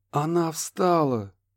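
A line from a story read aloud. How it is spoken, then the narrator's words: Breathless exclamation. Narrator (Russian): выдохнул доктор ему в лицо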